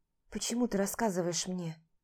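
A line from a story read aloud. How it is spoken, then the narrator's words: Quiet, offhand. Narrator (Russian): обронила тихо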